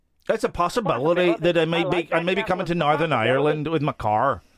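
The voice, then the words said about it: Put-on Northern Irish accent. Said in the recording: “if you're doing Northern Irish, you got to say things like possibility. ... Northern Irish accent, is it not? Possibility.”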